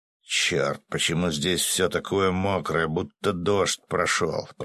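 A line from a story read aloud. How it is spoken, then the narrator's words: Grumbling. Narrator (Russian): проворчал дуб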